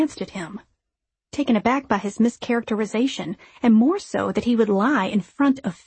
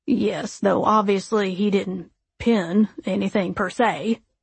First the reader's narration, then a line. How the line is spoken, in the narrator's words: Kirk chuckled